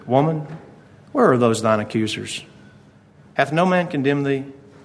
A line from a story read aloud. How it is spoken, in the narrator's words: says unto her, gently and meekly